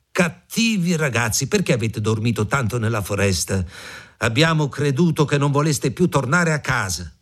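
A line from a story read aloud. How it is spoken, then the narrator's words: Woman shouting reproachfully. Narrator (Italian): la donna gridò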